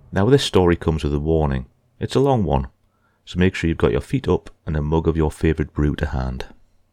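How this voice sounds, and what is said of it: Calm voice with an accent. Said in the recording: “accent. So interesting and told with a lovely, calm voice”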